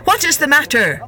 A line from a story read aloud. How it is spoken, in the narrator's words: cried young squire